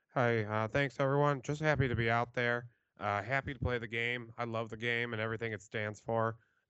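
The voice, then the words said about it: Impression of a backup quarterback. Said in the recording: “my my backup QB impersonation”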